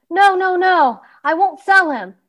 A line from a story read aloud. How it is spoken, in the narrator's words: shouted the boy